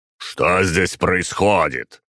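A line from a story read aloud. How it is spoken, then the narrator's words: Booming voice. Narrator (Russian): прогремел он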